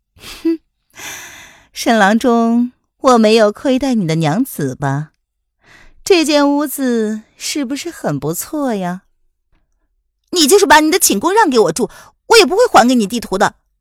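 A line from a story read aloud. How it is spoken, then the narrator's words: Mocking laughing woman. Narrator (Chinese): 叶来夫人笑着说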